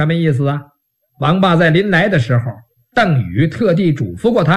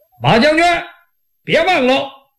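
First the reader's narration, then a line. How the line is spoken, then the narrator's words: Calling out. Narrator (Chinese): 王霸在旁边喊了一嗓子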